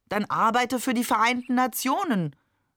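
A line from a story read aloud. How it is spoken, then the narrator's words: Called across the table. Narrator (German): rief Oma trotzdem über den Tisch hinweg zu ihm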